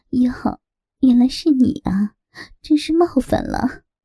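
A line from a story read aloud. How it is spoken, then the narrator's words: Giggling. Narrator (Chinese): 她噗呲一笑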